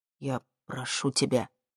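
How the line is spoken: Quiet. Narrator (Russian): тихо сказал

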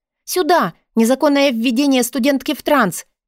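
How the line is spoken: Shouted. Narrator (Russian): прокричала я

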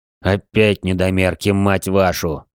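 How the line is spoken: Annoyed growl. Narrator (Russian): Досадливо прорычал Серж

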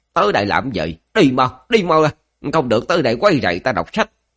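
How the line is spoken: Hoarse disgusted shout. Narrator (Vietnamese): vẻ mặt chợt căng thẳng, trong mắt lộ ra vẻ ghét cay ghét đắng, khàn giọng quát

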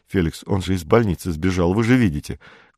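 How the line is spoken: Ordinary voice. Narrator (Russian): Курдюков обычным голосом

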